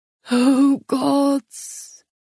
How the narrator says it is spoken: the father moaned

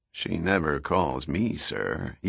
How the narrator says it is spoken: Jaeger muttered quietly

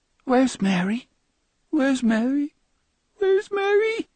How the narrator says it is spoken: Each time he asked the question, his voice grew more plaintive

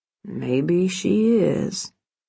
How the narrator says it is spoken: he relented, gently

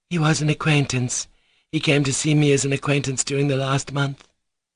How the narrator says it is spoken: Grushenka firmly and quietly replied

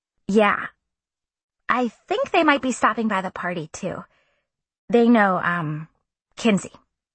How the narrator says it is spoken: I said

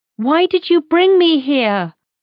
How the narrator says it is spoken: I yell, as tears roll down my cheeks

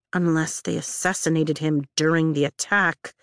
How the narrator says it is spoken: I mumble under my breath

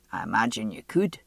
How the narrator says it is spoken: he said dryly

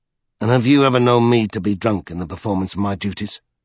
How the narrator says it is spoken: asked Childermas icily

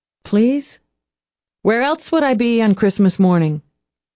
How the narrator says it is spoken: Angie laughed out loud

